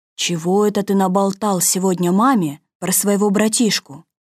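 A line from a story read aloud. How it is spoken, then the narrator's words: Sad, gloomy question. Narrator (Russian): дядюшка Римус так грустно, уныло, и спросил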